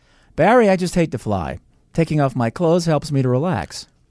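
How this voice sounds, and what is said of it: American accent with slight Boston tinge. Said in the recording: “speak like an American with just a tinge of a Boston accent ... speak English with a natural American accent”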